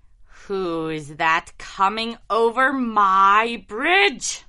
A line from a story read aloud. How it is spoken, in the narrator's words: roared the troll